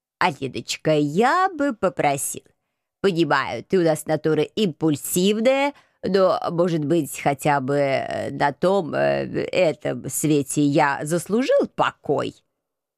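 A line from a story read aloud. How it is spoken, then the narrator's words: Indignant exhale. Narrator (Russian): Возмущенно выдохнул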